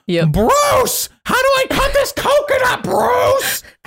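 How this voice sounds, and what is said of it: Exaggerated ridiculous impression voice. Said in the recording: “your impression of Carolyn? ... I can't do good impressions, so I just exaggerate my ridiculous voices”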